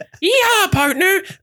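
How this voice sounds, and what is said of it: Imitated Wild West cowboy voice. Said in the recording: “This is my impression of Steve showing what the West sounds like.”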